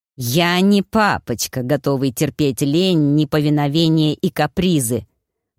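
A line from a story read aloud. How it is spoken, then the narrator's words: Hissed into ear. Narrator (Russian): прошипел Набар в Танино мохнатое ухо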